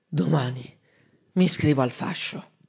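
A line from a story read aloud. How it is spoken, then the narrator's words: Slow, drowsy, slurred. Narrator (Italian): piano piano, tra una bollicina di saliva e l'altra, disse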